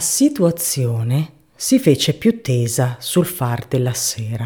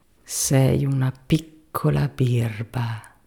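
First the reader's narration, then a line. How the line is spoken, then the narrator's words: Murmuring to herself. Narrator (Italian): mormorava fra sé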